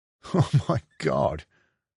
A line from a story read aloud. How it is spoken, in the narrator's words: Mia laughed with relief